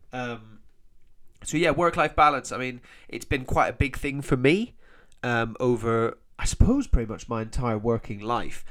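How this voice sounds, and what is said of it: Nasal, congested voice. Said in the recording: “I sound a bit nosy, nasal. I've got a bit of hay fever... my weird voice”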